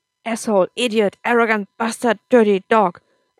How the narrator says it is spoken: Akam shouted

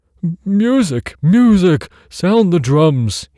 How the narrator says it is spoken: he cried

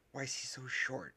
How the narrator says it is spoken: hissed another student

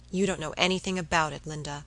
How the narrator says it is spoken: he replied

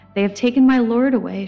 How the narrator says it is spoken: she said

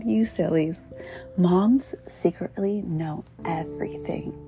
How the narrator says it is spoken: laughed and said

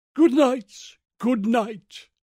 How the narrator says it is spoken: she cried

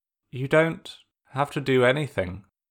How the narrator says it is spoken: Sokka said, trying to keep his voice even

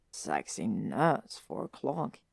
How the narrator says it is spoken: Ron mutters into his drink

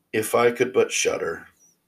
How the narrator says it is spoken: said quite sadly

